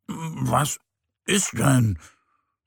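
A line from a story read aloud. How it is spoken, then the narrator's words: Sleepy murmur. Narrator (German): murmelt der kleine Bär verschlafen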